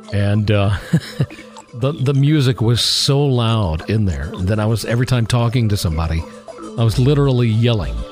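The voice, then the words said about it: Strained, fading hoarse voice. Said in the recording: “I'm somewhat losing my voice here ... here I sit with, voice just steadily going.”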